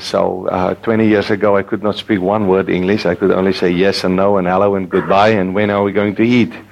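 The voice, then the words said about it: Noticeably different regional accent. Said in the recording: “my accent is a little bit different”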